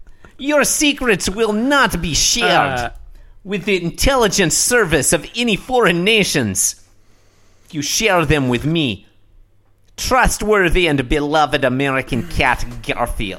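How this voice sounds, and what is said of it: Put-on Russian accent. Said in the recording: “I feel like I'm finally getting the hang of that accent... I'm not sure that I'm doing it well... We've been calling him Russian Garfield”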